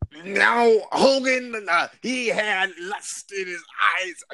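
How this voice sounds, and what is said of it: Strained attempt at imitating another's voice. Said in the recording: “trying to do the Macho Man voice, but that hurt. I couldn't do it.”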